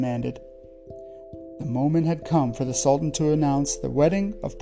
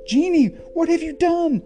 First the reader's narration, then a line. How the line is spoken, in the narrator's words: Aladdin shouted